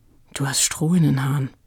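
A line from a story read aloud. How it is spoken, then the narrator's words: Murmured. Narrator (German): raunte Frieda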